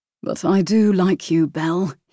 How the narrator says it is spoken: he corrected in a deep and husky voice

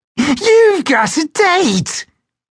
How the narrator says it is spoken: Evera laughed with delight

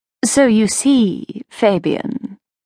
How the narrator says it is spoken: Assajad purred

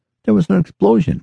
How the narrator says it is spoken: exclaimed Pete

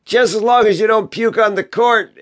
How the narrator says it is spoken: said his friend, laughing

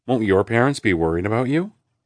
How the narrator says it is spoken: Aaron asks

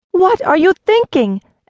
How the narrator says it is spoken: Eliseta cried

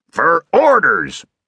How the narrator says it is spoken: roared his father

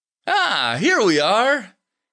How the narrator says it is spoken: said cheerfully

